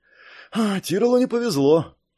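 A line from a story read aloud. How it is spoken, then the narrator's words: Feigned sigh. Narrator (Russian): притворно вздохнул Раст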